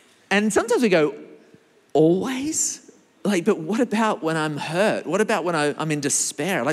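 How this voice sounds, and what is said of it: Usual voice. Nothing is said of it.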